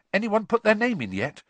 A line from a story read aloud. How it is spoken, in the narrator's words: Ron asked eagerly